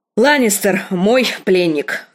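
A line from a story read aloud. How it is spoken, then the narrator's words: Irritated. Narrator (Russian): раздраженно сказала Кейтлин сиру Родрику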